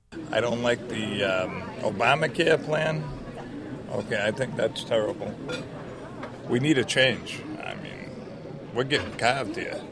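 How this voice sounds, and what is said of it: New Hampshire accent. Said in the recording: “that was the way he was pronounced it, New Hampshire accent.”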